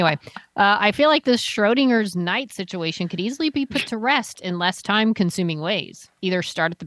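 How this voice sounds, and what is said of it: Usual voice. Nothing is said of it.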